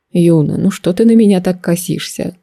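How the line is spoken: Mentor's sigh. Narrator (Russian): вздохнул наставник

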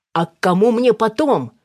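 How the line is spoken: Shouting after someone. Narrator (Russian): выкрикнул он ей вслед

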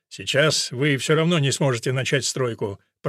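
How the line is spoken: Grumbling. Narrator (Russian): проворчал Годвин

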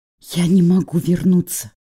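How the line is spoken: Whisper. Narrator (Russian): прошептала я

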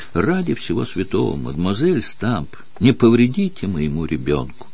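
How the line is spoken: Timid request. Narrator (Russian): Рената робко попросила

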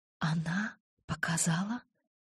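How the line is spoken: Whisper. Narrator (Russian): шепнула я

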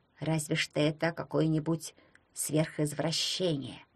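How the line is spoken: Grumbled. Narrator (Russian): буркнул он

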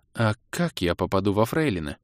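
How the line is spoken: Curious question. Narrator (Russian): поинтересовалась Илли

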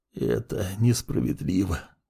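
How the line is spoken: Whisper. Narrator (Russian): прошептал Сид

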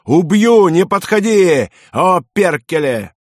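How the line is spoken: Desperate shouting. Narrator (Russian): избиваемый финн закричал

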